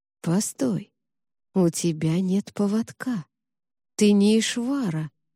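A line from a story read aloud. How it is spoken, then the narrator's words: Slow speech. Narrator (Russian): медленно сказал он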